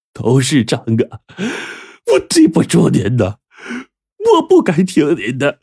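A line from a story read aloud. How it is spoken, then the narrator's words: Tearful lament. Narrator (Chinese): 贾大师一点不害怕，哭诉着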